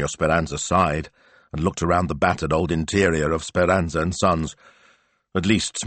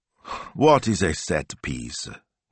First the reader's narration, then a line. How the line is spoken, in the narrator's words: he said wearily